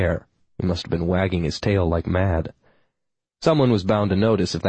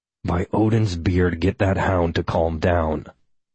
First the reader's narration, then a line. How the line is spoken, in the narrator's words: Hal growled